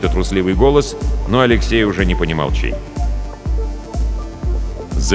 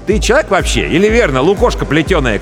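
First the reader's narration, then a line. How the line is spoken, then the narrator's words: Shouting. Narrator (Russian): кричал Андрей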